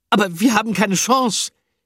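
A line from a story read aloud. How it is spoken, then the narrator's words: Wailing. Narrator (German): jammerte Picandou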